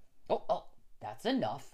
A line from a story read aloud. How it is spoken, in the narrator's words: the doctor said sharply